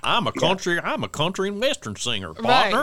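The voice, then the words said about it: Put-on American country accent. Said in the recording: “Can you do an American accent?”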